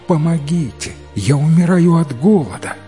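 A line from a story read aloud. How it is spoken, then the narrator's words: Desperate groan. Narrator (Russian): он застонал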